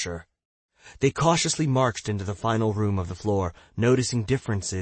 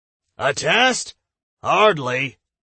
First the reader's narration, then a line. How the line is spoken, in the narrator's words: Tom roared